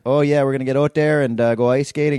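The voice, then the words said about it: Mock Canadian accent. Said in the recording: “I love making fun of Canadian accents.”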